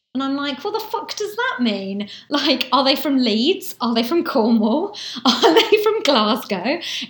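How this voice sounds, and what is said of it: Southeast English estuary accent. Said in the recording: “I'm from the Southeast and I have this accent, but I don't speak in received pronunciation ... my accent is kind of estuary”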